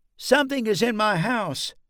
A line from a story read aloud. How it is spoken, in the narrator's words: Chris finally pushed down the lump that was preventing him from speaking and blurted out